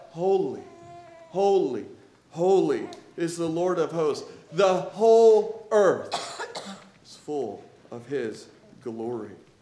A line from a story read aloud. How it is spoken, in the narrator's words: They cried out